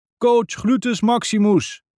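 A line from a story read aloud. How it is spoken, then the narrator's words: Calling out. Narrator (Dutch): roept Dodipoes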